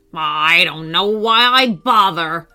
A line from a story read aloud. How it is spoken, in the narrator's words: would grumble